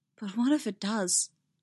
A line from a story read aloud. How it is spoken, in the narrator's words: she said, her voice trembling over the words